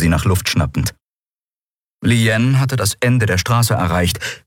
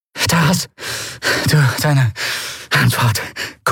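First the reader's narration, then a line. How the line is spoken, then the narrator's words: Panting, low voice. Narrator (German): keuchte sie mit gesenkter Stimme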